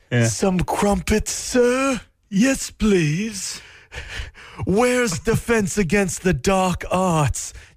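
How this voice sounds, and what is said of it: Put-on British accent. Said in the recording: “Talking a British accent.”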